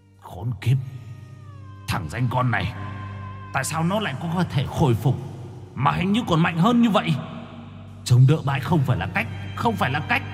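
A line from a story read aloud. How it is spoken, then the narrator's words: Harsh growling voice. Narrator (Vietnamese): Bóng đen đầu trâu mặt ngựa gằn giọng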